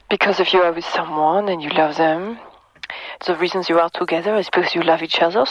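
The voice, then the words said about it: Lovely foreign accent. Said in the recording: “Lovely accent, one of the best.”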